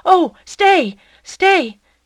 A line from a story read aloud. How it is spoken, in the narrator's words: cried out